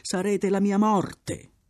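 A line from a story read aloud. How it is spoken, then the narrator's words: Loud desperate shouting. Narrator (Italian): Il cambusiere gridò con accenti di sonora disperazione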